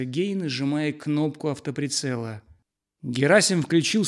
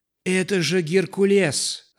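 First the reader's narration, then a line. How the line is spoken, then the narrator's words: Warriors shouting together. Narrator (Russian): закричали воины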